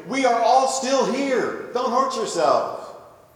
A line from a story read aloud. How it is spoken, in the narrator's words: Paul shouts out to him